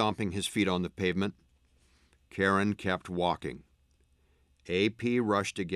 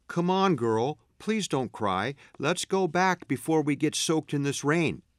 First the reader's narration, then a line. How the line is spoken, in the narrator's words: AP was pleading